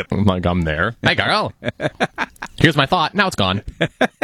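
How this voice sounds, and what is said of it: Imitates their own voice. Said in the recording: “very good impression of yourself”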